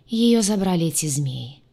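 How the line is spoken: Dejected, downcast voice. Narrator (Russian): произнес упавшим голосом Крейг

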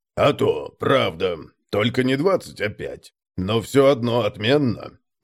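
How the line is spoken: Proud deep bass. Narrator (Russian): с заметной гордостью пробасил Конрад

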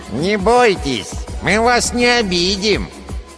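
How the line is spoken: Nasal voice. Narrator (Russian): Прогнусавил второй карлик

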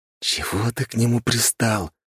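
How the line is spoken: Hiss. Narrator (Russian): прошипел Нарышкин

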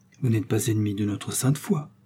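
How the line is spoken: Stammering. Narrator (French): dit-elle en balbutiant

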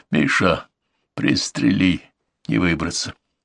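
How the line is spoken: Quiet speech. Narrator (Russian): негромко сказал

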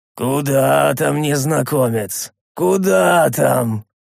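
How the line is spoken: Quavering laughing voice. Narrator (Russian): Дребезжащим голосом рассмеялся

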